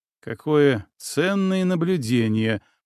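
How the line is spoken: Grumbling. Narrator (Russian): пробурчал Илья

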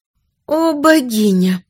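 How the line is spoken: Moaning. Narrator (Russian): простонала Лиолия

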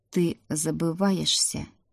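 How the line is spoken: Quiet. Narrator (Russian): тихо сказал Рик

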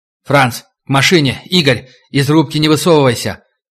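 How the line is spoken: Shout through cupped hands. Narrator (Russian): Маляренко сложив в ладони рупором, закричал

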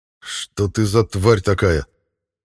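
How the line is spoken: Angry. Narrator (Russian): Зло произнес я

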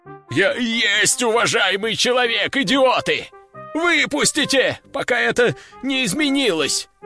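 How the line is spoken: Shrill squeal. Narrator (Russian): заверещал пахан

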